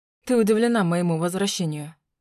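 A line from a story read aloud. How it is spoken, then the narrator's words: Smirking snort. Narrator (Russian): хмыкнул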